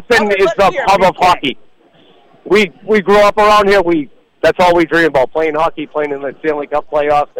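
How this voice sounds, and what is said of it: Boston accent. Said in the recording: “Give me some Boston accent.”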